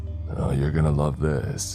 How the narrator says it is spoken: he said in his rugged voice

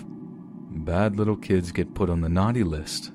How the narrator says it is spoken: and chuckled

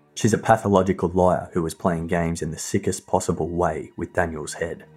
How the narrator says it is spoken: he said

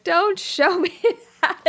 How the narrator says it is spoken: starts bawling

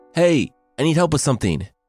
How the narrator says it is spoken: she yelled up to the mother and daughter

